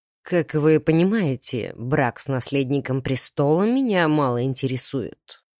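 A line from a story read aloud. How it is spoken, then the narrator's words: Dry remark. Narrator (Russian): сухо заметил дядюшка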